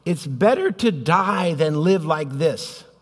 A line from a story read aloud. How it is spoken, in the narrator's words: Jonah exclaims